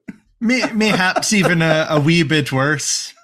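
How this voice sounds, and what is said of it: Deliberately bad put-on Irish accent. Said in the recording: “use our Irish accent for our terrible Irish accent for the rest of the episode”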